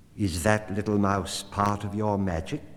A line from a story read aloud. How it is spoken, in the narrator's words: said the cat